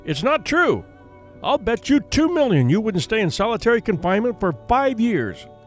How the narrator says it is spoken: shouted at the young man

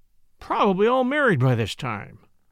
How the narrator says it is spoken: Jack groaned

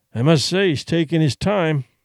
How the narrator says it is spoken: Duncan grumbled

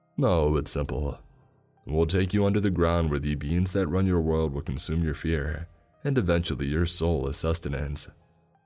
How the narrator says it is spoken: he said in a cold tone

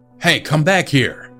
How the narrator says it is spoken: I heard someone shout

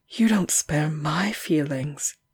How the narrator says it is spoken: Gerald said in a low voice

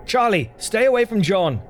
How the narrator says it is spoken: I yelled

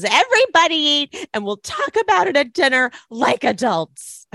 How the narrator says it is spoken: she angrily gets up and says

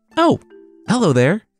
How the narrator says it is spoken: Turtle called out

